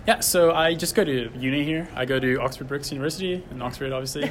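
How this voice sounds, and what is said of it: American accent. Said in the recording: “you've got an American accent”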